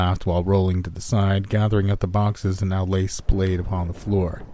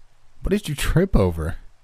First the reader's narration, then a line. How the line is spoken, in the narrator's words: Rachel asked, still chuckling